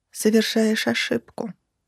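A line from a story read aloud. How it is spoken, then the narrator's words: Grim. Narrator (Russian): сказала мрачно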